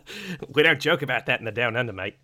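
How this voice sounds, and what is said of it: Jokey put-on impression voice. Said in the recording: “any excuse to do an impression”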